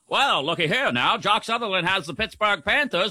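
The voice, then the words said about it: Old-timey radio announcer voice. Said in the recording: “Do the rest of the show in that voice. ... Old timey radio voice.”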